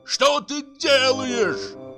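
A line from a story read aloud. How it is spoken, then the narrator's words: Yelled. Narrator (Russian): заорал Бутронца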